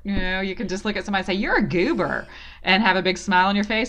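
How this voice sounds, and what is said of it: Female Southern American accent. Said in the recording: “as a female with a Southern accent”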